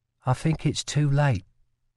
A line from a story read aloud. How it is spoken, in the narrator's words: Lila said softly